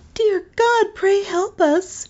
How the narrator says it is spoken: cried she

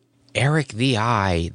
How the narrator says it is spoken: the women would murmur

